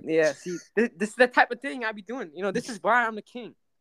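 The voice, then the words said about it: Put-on shifting Italian mobster accent. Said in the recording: “Your accent keeps changing from like an Italian mobster to the King of Ovlog.”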